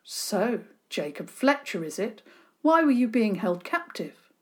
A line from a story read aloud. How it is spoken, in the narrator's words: Diggory spoke firmly